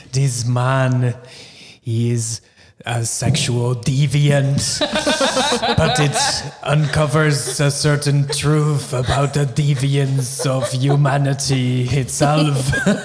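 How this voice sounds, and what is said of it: Werner Herzog impression. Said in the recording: “picturing Werner Herzog ... I wish Tom was here because he would do the better impersonation. I'm pretty bad at him.”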